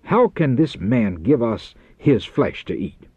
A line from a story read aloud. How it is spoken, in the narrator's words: the rabbis exclaimed angrily